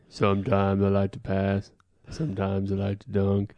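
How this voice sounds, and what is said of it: Shaquille O'Neal impression. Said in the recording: “my Shaq impression”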